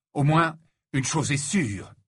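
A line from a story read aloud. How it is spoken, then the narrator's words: Fierce declaration. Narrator (French): déclara-t-il d'un ton féroce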